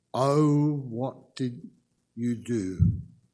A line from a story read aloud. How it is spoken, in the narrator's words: They groaned